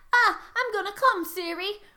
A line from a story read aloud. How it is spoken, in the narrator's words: Ramus shouted out